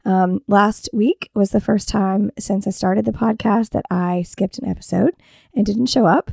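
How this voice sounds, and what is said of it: Scratchy, hoarse voice. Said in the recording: “you can tell by my voice, it's a little scratchy here ... I didn't really have a voice and I'm coughing a lot still”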